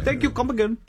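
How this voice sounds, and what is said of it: Imitated Indian accent. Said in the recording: “very thick Indian accent ... I don't do a great Indian accent”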